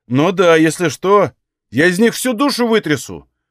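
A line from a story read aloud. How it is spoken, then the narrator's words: Shouted. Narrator (Russian): выкрикнул он последнюю фразу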